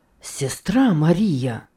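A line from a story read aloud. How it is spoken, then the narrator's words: Ardent exclamation. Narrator (Russian): пылко воскликнул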